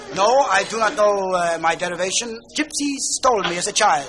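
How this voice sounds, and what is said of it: Put-on Greek accent. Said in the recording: “you have a Greek accent.”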